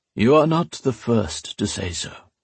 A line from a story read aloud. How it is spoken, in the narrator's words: the old priest said, his tone one of pity and regret